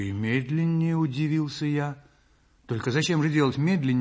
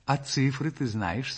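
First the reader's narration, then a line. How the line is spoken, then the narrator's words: Plain. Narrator (Russian): спросила Настя Васильевна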